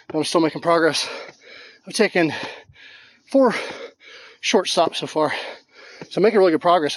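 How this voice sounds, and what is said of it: Out of breath, panting. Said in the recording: “So as you can hear, I am out of breath.”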